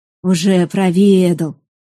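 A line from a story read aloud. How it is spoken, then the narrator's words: Unsurprised snort. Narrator (Russian): хмыкнул Свенельд, впрочем, без удивления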